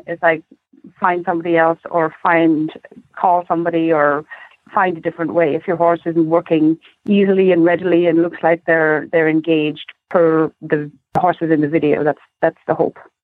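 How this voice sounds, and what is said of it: Non-American accent. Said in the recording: “lovely accent ... Talk American.”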